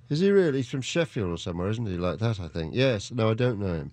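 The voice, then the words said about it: English accent. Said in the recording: “I don't have a Yorkshire accent... But you sound like an English accent... It's an English accent”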